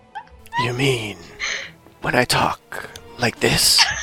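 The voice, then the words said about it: Breathy Hades impression. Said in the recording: “does the best Hades impersonation ... A little bit more breathy”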